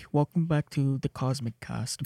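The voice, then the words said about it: Put-on accent. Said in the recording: “We actually have an accent. We just don't usually use it.”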